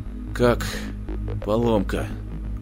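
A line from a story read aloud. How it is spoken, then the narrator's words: Strained forced words. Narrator (Russian): выдавил он из себя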